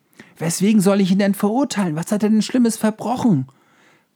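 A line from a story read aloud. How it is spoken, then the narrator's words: Somewhat desperate shout. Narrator (German): rief Pilatus etwas verzweifelt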